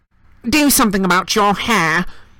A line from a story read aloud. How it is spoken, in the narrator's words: Aunt Petunia snapped